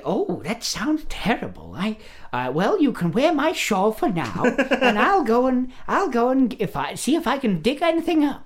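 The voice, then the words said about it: Old lady cartoon character voice. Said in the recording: “That's a really good impression of the old lady from Looney Tunes.”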